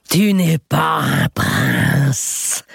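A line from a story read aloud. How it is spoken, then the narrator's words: Rumbling voice. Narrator (French): dit-elle de sa voix grondante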